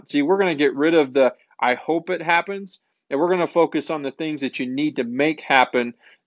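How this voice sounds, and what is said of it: Small-town rural accent. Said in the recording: “You probably can tell that from my accent, just a small town farm boy”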